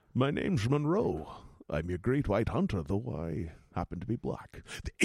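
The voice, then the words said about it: Sean Connery impression. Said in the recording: “do it a little, lean towards Sean Connery”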